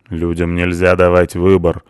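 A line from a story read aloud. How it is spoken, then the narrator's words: Gloomy. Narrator (Russian): мрачно сказал Душан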